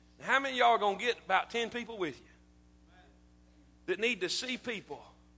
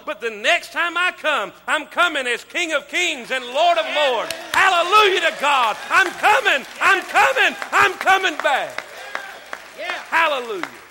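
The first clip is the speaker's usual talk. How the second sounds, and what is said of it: Shouting, fervent preaching. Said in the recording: “That's why I'm shouting”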